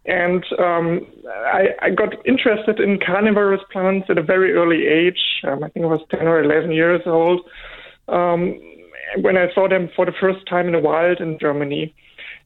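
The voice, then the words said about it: German accent. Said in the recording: “I grew up in, in Germany, as you may hear from my from my accent.”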